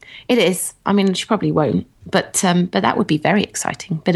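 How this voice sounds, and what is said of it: Usual voice. Nothing is said of it.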